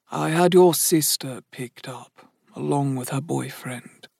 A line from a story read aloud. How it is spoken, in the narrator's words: Sam murmured